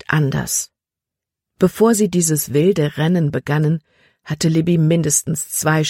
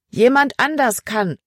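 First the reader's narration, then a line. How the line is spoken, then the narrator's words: Calling back. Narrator (German): rief Emma zurück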